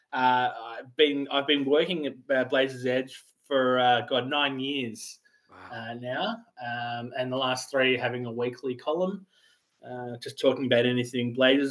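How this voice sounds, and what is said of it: Australian accent. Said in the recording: “So I'm an Australian, in case you hadn't have realized. ... I could tell just a little bit.”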